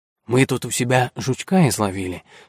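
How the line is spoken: Whisper. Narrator (Russian): шепнул Рожнов Арчи

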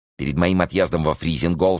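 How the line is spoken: Sharp interruption. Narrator (Russian): сказал сыщик, резко перебивая его

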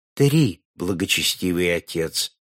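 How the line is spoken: Quiet trembling voice. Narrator (Russian): ответил брат тихим дрожащим голосом

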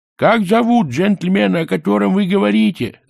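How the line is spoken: Yelling. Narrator (Russian): завопил он

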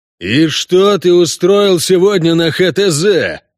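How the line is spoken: Yelling. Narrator (Russian): заорал техник

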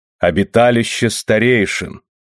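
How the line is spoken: Solemn announcement. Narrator (Russian): торжественно возвестил Рона

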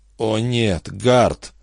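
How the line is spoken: Inner groan. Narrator (Russian): только и простонал его разум

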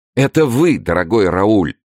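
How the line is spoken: Exclamation. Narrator (Russian): воскликнул Дегиш

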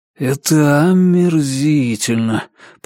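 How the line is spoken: Grumbling. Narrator (Russian): проворчал Ричард

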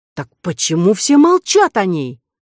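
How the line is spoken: Exclaimed. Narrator (Russian): воскликнула Кора

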